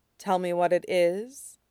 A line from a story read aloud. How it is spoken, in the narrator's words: Zevran says